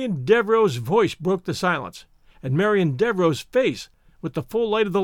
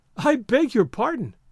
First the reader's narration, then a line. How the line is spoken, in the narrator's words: she said, and laughed